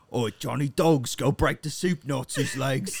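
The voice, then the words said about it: Put-on accent, self-described as bad. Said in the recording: “I'm sure my accent is garbage.”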